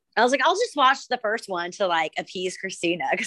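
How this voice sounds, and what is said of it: Rough, congested voice. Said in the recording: “I have a cold, so my voice is all jacked up.”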